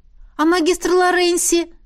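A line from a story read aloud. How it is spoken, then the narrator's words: Group wailing in unison. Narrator (Russian): едва ли не хором взвыли мы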